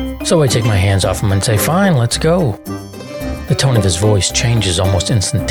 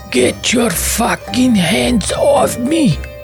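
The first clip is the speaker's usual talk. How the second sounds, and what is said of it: Put-on Russian accent, shouting. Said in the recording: “That's my best Russian accent, sorry.”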